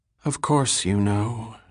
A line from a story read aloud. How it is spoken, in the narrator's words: said wearily